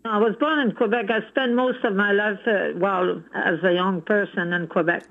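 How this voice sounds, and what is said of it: French-Canadian accent in English. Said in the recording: “I have my accent. ... I can tell you're a Francophone”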